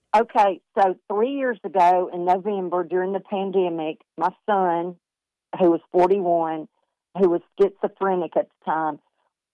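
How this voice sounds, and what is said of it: Southern Alabama accent. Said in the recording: “good Huntsville, Alabama accent ... Y'all sound like me.”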